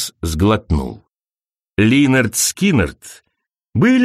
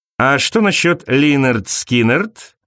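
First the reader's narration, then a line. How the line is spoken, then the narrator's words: Plain. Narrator (Russian): спросил он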